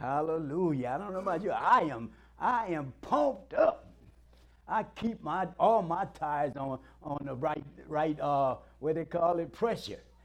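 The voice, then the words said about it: Southern American accent. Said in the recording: “That's my professional accent... That's my southern accent.”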